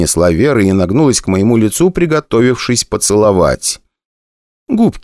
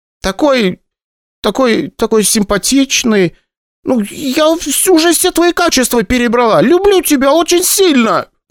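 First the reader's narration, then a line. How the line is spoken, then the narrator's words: Pleading, near tears. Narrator (Russian): взмолилась Вера, чуть ли не плача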